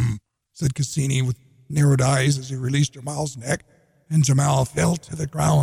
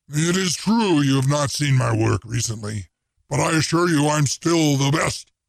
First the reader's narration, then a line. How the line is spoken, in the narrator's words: growled, a bit meekly